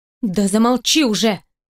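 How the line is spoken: Stern voice. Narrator (Russian): строгим голосом отвечает ей Катя

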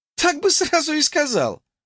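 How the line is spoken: Snorting young woman. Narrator (Russian): фыркнула девушка

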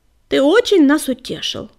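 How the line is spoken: Scornful snort. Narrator (Russian): фыркнула Кисточка

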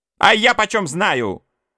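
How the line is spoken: Shout. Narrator (Russian): крикнула матушка

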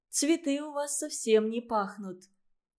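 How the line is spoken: Sad. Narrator (Russian): грустно сказала ей Валентина

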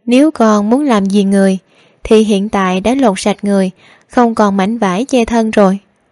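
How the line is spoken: Confident, smiling woman. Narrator (Vietnamese): Nàng hơi mỉm cười, tràn đầy khí thế, nói với thiếu niên Hy Loan

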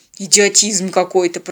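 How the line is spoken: Grumbling. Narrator (Russian): проворчал пилот

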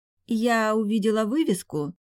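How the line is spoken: Hesitant, unsure beginning. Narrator (Russian): начала немного неуверенно

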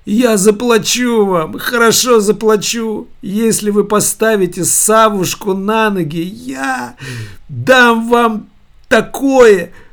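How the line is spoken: Cried out. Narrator (Russian): выкрикнула Евлампия

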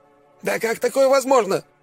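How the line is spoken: Yell. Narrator (Russian): заорал он

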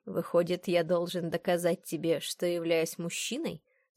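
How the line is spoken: Low velvety voice. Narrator (Russian): спросил низким бархатным голосом

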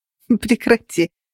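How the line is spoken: Laughing. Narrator (Russian): Рассмеялась я

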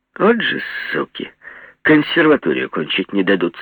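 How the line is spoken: Young woman, hoarse laugh. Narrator (Russian): Девица хрипло засмеялась и сказала

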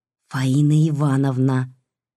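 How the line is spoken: Quiet prompt. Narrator (Russian): тихонько подсказала Катерина

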